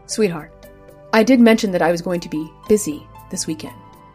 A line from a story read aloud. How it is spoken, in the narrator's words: Bjorn calmly said